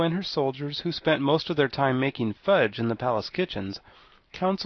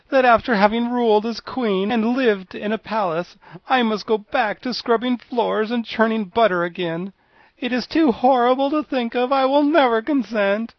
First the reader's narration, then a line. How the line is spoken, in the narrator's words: moaned